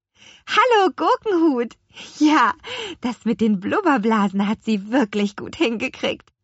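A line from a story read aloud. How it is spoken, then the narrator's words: Laughing. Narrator (German): lachte Lea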